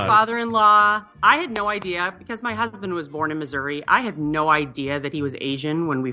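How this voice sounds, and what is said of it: Usual voice. Nothing is said of it.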